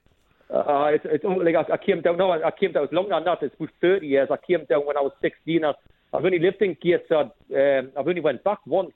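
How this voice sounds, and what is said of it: Strong Gateshead regional accent. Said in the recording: “I've never lost my accent at all... It sounds like you just came down on the train today... everybody knows with my accent. I've tried to get rid of it. I've tried to talk slower.”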